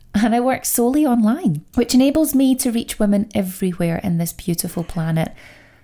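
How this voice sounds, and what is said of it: Scottish accent. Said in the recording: “I know the accent does give it away. I am Scottish.”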